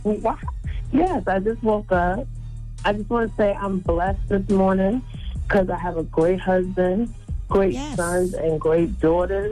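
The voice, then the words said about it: Deep, just-woke-up voice. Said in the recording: “You got a deep voice”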